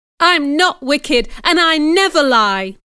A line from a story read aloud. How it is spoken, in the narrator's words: I cried